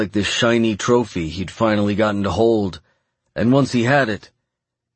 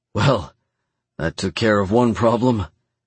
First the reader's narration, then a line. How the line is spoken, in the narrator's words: muttered